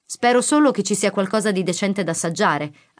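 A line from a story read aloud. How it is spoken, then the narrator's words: Annoyed huffing. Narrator (Italian): afferma sbuffando con tono scocciato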